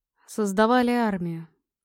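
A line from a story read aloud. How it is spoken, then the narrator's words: Gloomy. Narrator (Russian): мрачно ответила Орчиха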